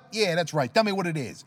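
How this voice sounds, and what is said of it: Bad put-on Italian accent. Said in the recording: “I slipped into that bad Italian accent”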